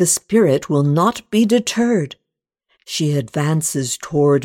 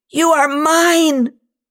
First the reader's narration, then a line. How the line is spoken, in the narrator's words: she screams